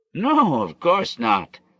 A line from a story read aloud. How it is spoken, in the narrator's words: laughed Dudu